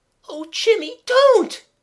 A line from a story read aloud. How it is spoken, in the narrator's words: cried Mabel desperately